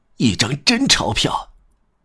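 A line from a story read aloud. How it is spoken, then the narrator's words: Quiet mumbling. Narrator (Chinese): 他小声咕哝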